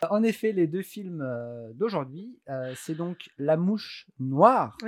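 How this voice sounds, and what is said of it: Usual voice. Nothing is said of it.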